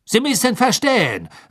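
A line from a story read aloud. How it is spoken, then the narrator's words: Hurried. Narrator (German): sagte Karkaroff hastig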